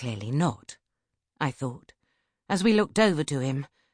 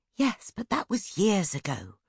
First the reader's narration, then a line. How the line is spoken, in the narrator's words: I whispered